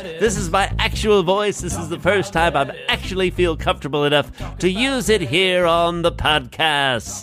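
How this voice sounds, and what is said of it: TV or radio announcer voice. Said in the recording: “I'm really hoping that voice doesn't last the whole episode ... This is your TV announcer voice or radio announcer voice?”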